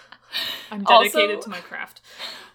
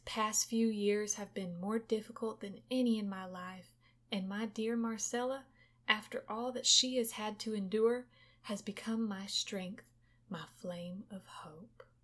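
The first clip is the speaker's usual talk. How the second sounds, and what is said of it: Put-on Texas accent. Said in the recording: “we can emulate a Texas accent because we're from there”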